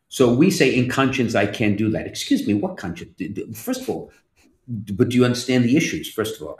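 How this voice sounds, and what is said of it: Italian-sounding speech. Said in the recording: “I sound so Italian”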